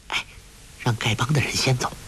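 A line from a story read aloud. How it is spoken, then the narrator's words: Low voice. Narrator (Chinese): 黄蓉低声说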